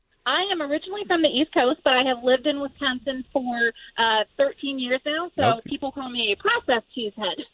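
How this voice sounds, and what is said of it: Wisconsin accent. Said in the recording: “I started to hear some of that accent in your voice, so it sounds like you know how to say Wisconsin”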